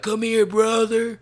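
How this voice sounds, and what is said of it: Imitates another person's voice. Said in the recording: “Terrible, terrible impression.”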